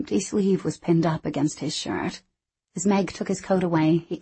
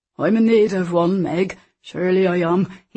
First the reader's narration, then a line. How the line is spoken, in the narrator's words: he said, chuckling at his own joke